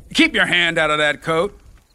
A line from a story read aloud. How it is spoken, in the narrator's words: Dyke snapped